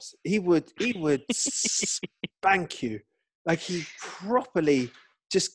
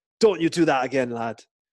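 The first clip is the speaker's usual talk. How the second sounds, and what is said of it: Put-on Scottish accent. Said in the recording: “I don't know why he's Scottish all of a sudden. I can't do a Sheffield accent”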